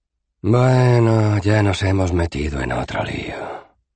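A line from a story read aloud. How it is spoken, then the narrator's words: Sigh. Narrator (Spanish): suspiró Rincewind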